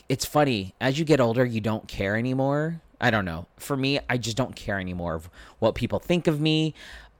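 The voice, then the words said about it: Higher-pitched male speaking voice. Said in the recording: “because the way I speak and because my voice is a little higher”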